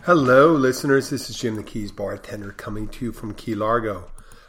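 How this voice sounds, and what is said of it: Sick, unwell-sounding voice. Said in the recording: “You probably can tell by my voice... you don't sound too well... No, I do not feel so.”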